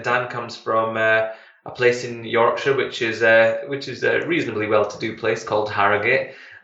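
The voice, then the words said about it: Scottish Glasgow accent. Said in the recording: “I'm Scottish, by the way, so I don't know if you've noticed a difference between between my accent and Dan's accent... I come from um, in Glasgow”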